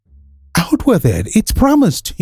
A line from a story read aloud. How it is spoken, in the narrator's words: laughed